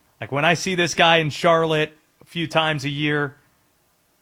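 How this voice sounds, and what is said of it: Usual voice. Nothing is said of it.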